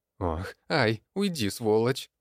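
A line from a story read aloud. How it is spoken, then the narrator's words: Hoarse old voice. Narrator (Russian): послышался хриплый старческий голос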